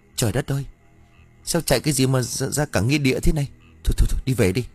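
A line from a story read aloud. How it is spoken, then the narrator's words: Stammering in shock. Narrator (Vietnamese): Sành cũng nhận ra mình đang đứng ở đâu, nó lắp bắp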